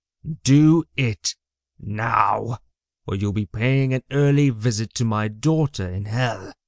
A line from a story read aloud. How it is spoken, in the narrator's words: he snarled